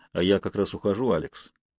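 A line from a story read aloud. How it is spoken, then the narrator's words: Plain. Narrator (Russian): сказал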